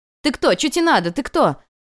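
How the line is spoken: Yelling. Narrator (Russian): Орала она в пустой двор

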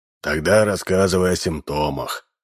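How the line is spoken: Sighing. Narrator (Russian): вздохнул

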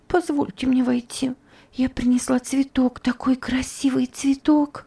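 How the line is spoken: Pleading. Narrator (Russian): сказала умоляющим голосом Топси

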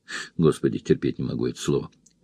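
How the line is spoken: Muttering under breath. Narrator (Russian): пробормотала она себе под нос

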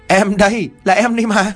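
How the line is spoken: Ghostly burst of laughter. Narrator (Vietnamese): con ma cười phá lên

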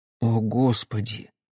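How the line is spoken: Mutter. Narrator (Russian): пробормотал я наконец

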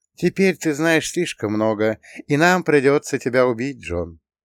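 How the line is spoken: Bitter sigh. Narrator (Russian): горько вздохнул я

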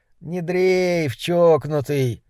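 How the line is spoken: Sleepy voice. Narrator (Russian): Голос его звучал как-то сонно

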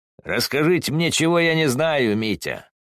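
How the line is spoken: Laughing, shouted back. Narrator (Russian): Стрельников рассмеялся и помахал рукой, удаляясь по улице, а затем крикнул в ответ

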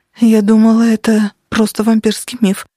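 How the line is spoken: Trembling voice. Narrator (Russian): дрожащим голосом ответила Денис

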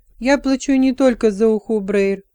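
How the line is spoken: Sharp reply. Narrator (Russian): резко ответила Телла

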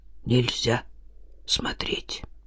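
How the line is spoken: Muttered. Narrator (Russian): Иван что-то пробормотал

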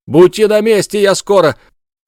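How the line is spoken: Shouted. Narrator (Russian): крикнул он Бажову

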